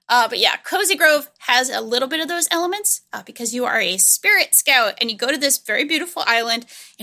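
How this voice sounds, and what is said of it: Speaks with a foreign accent. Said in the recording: “that's a really hard word for me to say with my accent”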